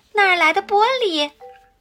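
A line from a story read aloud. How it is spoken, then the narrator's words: Shouting. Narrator (Chinese): 罗拉喊道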